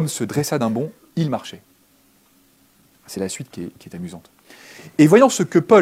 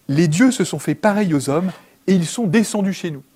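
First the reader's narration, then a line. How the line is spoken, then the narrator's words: Crowd crying in Lycaonian. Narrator (French): les foules s'écrièrent en lycaonien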